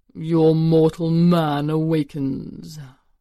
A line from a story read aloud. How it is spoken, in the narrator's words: rumbled a deep voice